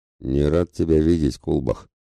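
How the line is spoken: Dull low rumble. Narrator (Russian): глухо пророкотал вошедший

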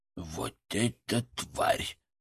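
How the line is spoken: Whisper inside the head. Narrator (Russian): прошептал Фырк в моей голове

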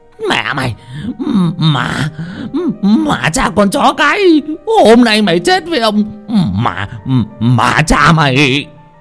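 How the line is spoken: Pained hissing shriek. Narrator (Vietnamese): Bá Hậu đau đớn mà rít lên

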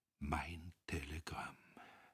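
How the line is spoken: Barely audible inner murmur. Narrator (German): Innerlich, in so tiefer Seele, dass er es selbst kaum hörte, murmelte

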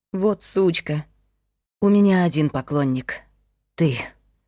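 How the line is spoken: Sighing repetition. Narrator (Russian): вздохнув, повторила Мила

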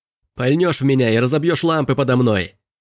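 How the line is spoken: Shout. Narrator (Russian): выкрикнул Робби

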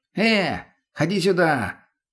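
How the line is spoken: Distant shout. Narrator (Russian): крикнул он от крайнего дома

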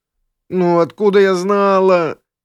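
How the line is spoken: Whimpering. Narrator (Russian): прохныкала вампиресса

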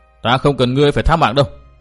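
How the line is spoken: Irritated snapping. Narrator (Vietnamese): Tư Mã Minh bực mình gắt

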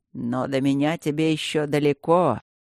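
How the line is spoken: Triumphant snort. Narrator (Russian): Торжествующе хмыкнул блакариец

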